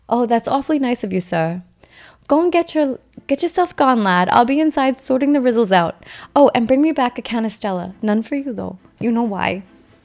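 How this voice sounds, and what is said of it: Poor put-on British accent. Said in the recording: “my British accent sucks”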